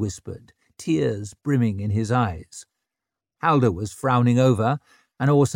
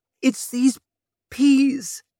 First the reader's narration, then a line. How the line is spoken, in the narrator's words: he said in a quavering voice